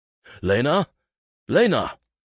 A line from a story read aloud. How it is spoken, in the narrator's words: Ivar called out as his heart began to pound with fear